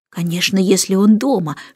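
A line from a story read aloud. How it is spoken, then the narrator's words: Whisper. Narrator (Russian): шепнула Джейн Майклу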